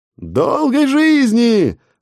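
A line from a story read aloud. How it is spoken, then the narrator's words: Joyful crowd roar. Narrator (Russian): радостно взревела толпа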